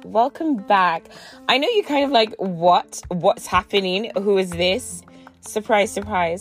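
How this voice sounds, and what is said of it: Slightly rough, unsteady voice. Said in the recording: “my voice is a little sketch”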